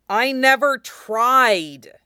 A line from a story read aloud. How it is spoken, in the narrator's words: Lee snarled back